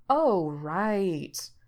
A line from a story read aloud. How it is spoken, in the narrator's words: Gerard drawls, mouth twisting a bit around the words